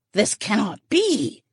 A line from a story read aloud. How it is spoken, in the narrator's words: he hissed